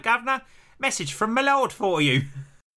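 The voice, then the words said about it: Put-on Cockney accent. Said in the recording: “a small boy with a Cockney accent”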